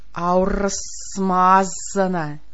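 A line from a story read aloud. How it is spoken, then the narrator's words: Contemptuous hiss. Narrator (Russian): презрительно зашипела она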